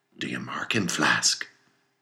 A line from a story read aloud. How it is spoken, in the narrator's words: whispered Stubb